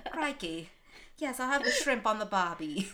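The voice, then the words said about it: Poor put-on Australian accent. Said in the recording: “I cannot do an Australian accent.”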